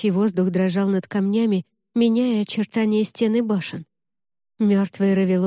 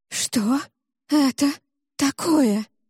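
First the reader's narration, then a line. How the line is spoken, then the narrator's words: Horrified gasp. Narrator (Russian): выдохнула с ужасом Джемма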